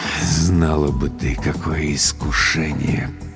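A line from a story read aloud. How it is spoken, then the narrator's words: Muttering. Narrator (Russian): пробормотал Владлен Борисович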